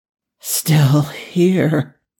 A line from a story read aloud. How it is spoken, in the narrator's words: Daniel slurred